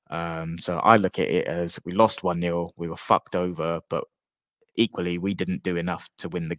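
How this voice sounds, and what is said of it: Flat, numb, subdued tone. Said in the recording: “you can tell from my tone, I'm numb to the VAR stuff. I'm disappointed, but I'm not as angry as I should be.”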